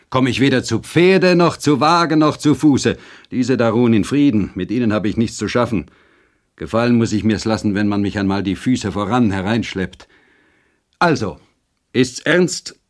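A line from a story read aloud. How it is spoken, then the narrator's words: Rider calling out. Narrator (German): rief der Reiter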